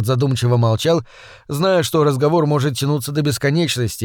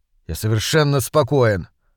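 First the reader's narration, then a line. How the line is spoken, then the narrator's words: Sullen grumble. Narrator (Russian): угрюмо пробурчал Смолвуд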